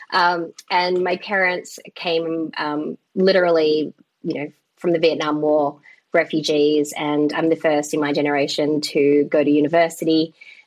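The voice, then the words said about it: Australian Melbourne accent. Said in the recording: “born and raised in Melbourne, hence the accent.”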